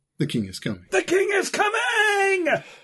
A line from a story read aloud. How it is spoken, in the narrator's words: your one single urge is to scream